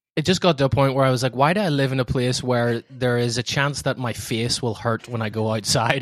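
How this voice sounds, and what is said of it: Irish accent. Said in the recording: “I really dig in your accent ... I really want an Irish accent, but the one they have on the phone doesn't sound like you”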